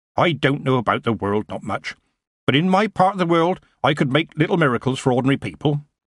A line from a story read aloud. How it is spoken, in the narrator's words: Granny replied sharply